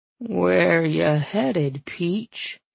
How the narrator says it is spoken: he drawled

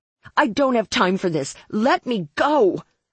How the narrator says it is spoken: I yelled

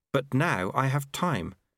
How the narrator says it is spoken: said Lobsang earnestly

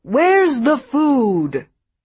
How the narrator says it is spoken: He … as if exhilarated and bellowed

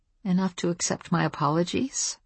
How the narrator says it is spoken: I suggested in a small voice

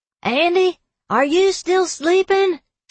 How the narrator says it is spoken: She screamed in the general direction of my room

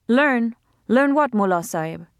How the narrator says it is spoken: Nana said sharply

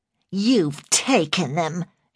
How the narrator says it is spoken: she sneered

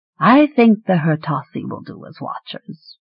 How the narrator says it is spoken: Rainlance said smoothly, soothingly

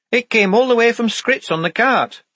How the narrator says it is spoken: said Shufti excitedly

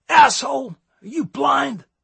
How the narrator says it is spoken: yelled another

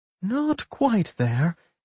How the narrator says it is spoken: Helen murmured

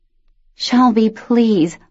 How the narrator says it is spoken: Luce begged, groaning from the weight, the chill, and the general nastiness of the shadow

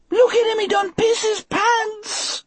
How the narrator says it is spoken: Delacroix howled

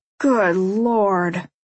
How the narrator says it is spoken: Jenna moans

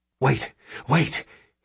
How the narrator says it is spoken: hisses Condri, astonished at himself

